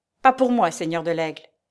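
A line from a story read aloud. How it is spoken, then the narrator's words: Curt retort. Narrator (French): répliqua sèchement Guébriant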